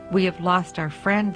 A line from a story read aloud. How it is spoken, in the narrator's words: they said